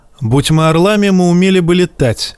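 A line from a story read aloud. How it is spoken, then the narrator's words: Snapping retort. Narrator (Russian): огрызнулся Жайен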